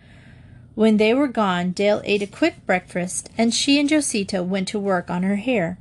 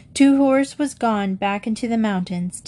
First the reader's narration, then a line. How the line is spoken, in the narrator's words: Dale said kindly